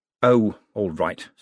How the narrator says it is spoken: said Moist

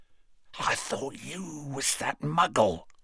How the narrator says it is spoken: whispered Morfin

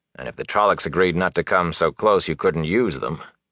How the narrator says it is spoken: the warder said dryly

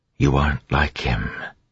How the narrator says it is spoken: seeming to whisper in her mind

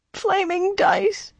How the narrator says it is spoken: he whimpered, or something very like

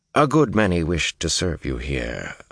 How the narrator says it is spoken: Mylan murmured

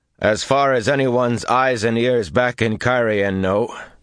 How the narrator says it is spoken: he said loudly

